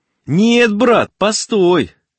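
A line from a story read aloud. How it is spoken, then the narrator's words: Excited shouting. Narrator (Russian): кричал, входя в азарт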